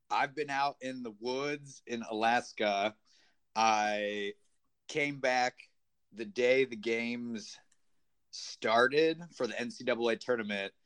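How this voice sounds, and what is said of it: Sounds a little sick. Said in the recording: “I sound a little sick”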